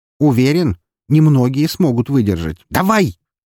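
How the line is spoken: Irritated bark. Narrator (Russian): рявкнул я, раздражаясь из-за необходимости убеждать какую-то железку

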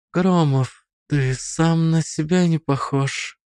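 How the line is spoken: Breathed into ear. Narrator (Russian): выдохнула она мне на ухо

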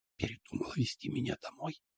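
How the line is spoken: Whisper. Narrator (Russian): прошептала Лия

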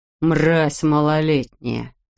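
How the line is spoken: Cursing through clenched teeth. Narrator (Russian): сквозь зубы выругался Грегор

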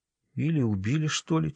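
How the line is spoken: Quiet. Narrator (Russian): тихо добавила

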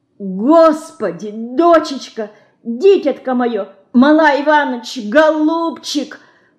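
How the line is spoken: Moaning. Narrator (Russian): простонала Лина

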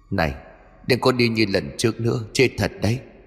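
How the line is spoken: Ghost, harsh gritted voice. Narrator (Vietnamese): Hồn ma vẫn gằn giọng

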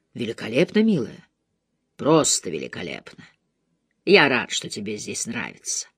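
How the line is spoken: Low voice. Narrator (Russian): Низким голосом он произнес

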